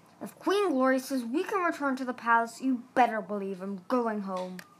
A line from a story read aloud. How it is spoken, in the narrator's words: growled one dragon